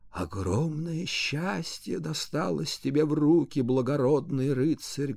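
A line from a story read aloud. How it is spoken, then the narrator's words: Muffled voice. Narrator (Russian): глухим голосом произнесла она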